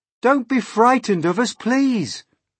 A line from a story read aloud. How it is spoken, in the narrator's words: James called out